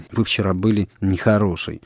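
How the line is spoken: Soft. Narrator (Russian): мягко сказала Соня

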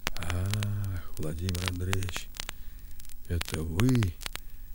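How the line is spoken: Whispered reply. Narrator (Russian): отвечал Архип шепотом

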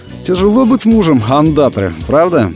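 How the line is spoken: Cheerful. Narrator (Russian): Рома весело так произнес

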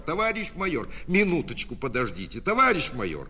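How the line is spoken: Breathless shout. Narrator (Russian): Запыхавшись, закричал

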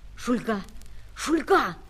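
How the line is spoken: Piercing whisper. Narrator (Russian): Пронзительным шепотом позвал капитан-лейтенант

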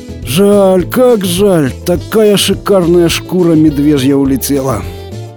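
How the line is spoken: Moaning lament. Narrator (Russian): застонал ему вслед Пронин

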